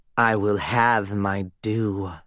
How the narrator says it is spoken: Styx snarled

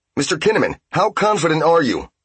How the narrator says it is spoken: shouted one of the reporters

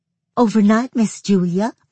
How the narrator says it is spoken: she said, almost gasping for breath

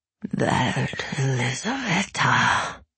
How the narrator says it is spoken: he said on a wheezing gasp

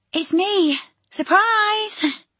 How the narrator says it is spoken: she called out

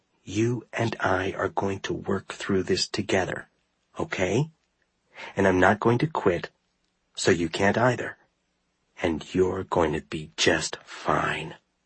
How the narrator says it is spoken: though I knew he wouldn't understand, I whispered

